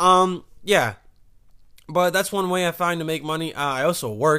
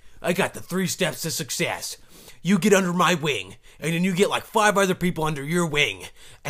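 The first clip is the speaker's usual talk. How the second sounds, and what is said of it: Imitates another person's voice. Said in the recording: “That's my impersonation.”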